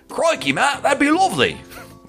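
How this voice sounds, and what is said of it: Terrible put-on Australian accent. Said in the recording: “It's a terrible accent... I already know I do terrible accents.”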